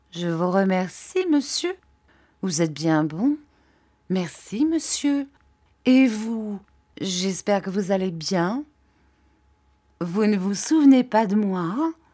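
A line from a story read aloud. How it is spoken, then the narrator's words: Troubled slow reply. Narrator (French): Il parut fort troublé et répondit lentement, selon son habitude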